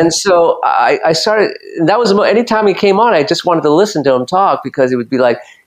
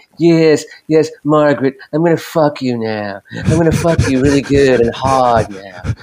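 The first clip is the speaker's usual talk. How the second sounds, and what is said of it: Imitates another person's voice. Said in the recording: “it's a little bit like Peter Lorre ... if my impersonation does it justice ... It sounds more like Peter Lorre all the time”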